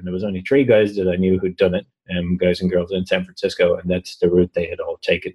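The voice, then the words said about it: Strong Irish accent. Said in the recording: “Just your accent. ... They're probably placing from Ireland around now. ... I really can only understand every other word he's saying”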